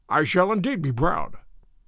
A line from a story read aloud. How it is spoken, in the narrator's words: murmured